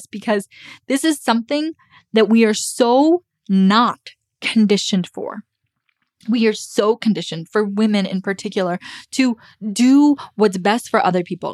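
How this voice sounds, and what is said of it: Choked-up emotional voice. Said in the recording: “getting choked up”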